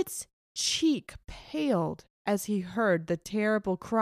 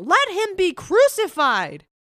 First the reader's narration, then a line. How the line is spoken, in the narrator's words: they cried out the more, saying